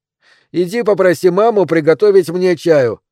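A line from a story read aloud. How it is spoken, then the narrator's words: Shouted. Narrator (Russian): крикнул он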